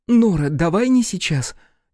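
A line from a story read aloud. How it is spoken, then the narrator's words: Two voices exclaiming together. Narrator (Russian): Чуть ли не в один голос воскликнули Ранета с Людвикой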